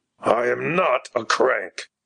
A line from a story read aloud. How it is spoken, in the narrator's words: growled Alexander Abraham resentfully